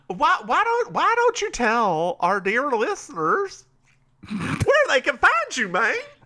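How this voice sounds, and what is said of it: Silly put-on voice. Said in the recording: “I'm trying the silly voices now ... I love you have the silly voices”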